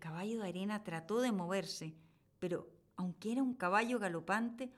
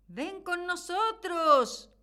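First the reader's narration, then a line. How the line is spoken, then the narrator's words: Sea brothers shouting. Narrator (Spanish): le gritaban sus hermanos del mar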